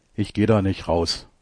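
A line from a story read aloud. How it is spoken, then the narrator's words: Plain. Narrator (German): sagt er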